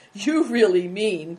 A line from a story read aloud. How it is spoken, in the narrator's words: cried